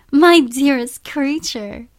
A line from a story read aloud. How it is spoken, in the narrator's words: cried Isabella